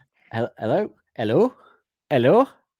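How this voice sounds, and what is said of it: Attempted Welsh accent. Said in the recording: “That's me trying to do a Welsh accent there.”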